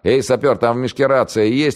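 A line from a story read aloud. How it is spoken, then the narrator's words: Shouted. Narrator (Russian): крикнул Октябрьский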